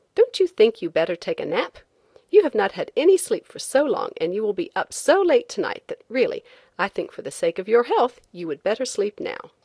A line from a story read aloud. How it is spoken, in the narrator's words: I said to him very crossly